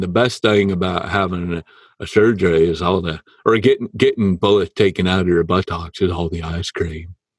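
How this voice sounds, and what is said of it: Poor Forrest Gump impression. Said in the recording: “terrible Forrest Gump impression.”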